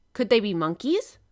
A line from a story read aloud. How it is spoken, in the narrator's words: exclaimed Ned Land